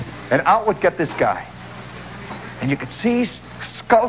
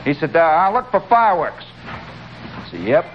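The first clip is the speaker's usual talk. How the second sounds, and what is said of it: Put-on Indiana accent. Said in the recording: “I have to use my Indiana accent now. This is Indiana.”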